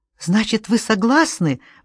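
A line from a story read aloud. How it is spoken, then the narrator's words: Exclaiming. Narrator (Russian): воскликнула Анна Хиден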